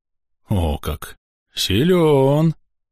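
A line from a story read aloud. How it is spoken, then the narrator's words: Admiring gasp. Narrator (Russian): восхищенно выдохнул бык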